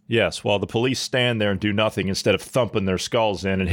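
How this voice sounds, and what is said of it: Usual voice. Nothing is said of it.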